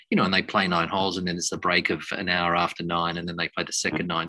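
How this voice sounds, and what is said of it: Australian accent. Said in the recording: “As you can probably tell by that accent, ... wasn't born in Japan, but the Australian PGA member”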